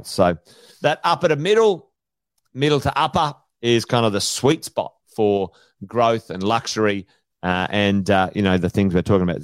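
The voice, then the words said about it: Hoarse, worn-out voice. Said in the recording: “Feel like I've still lost my voice. I've been talking all weekend.”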